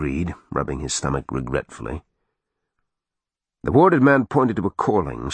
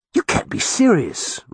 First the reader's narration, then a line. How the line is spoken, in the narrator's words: Roger cried in disgust